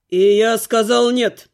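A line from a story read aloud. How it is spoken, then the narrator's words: Growl. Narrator (Russian): рыкнул Глун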